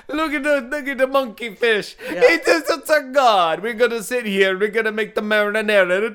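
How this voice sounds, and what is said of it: Put-on Italian accent. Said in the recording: “I just like throwing an Italian accent in wherever I can.”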